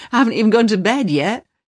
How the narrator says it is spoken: he laughs

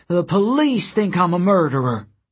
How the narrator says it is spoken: Queen Marie shouted

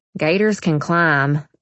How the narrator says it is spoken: I said

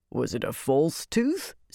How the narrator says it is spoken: said the brewer with a chuckle

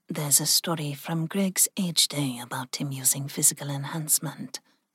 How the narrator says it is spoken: Ling murmured

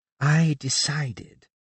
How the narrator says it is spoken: she continued, her tone a conversational purr

